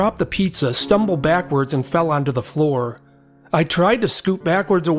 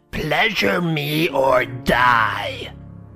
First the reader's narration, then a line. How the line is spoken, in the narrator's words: Her face was wrinkled into an evil snarl and she screeched out